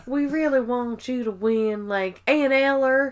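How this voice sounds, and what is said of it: Mock Southern accent. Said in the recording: “Pennsylvanians do not have a fucking Southern accent ... she's not from Oklahoma”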